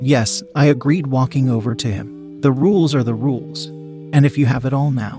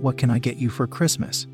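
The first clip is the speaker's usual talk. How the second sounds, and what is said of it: Whispered line. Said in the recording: “I dropped my voice to a whisper”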